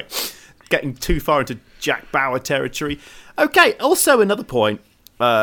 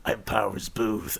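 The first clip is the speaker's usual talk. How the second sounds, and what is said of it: Creepy voice. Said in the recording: “The guy with the creepy voice.”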